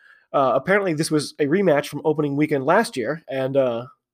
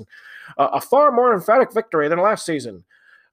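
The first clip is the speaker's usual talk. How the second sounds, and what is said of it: Imitated rugby announcer accent. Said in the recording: “I'm doing this kind of accent for the announcers for some reason.”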